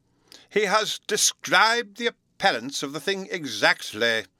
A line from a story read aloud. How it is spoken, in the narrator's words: the Professor exclaimed with enthusiasm